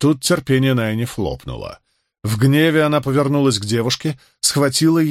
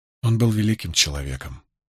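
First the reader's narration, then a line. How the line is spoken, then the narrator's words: Quiet. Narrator (Russian): тихонько произнесла Илайн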